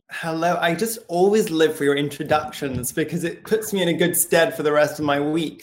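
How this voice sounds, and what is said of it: Beautiful accent. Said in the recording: “the man with the most beautiful skin and accent to match”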